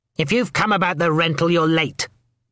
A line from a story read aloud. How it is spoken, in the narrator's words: spat a voice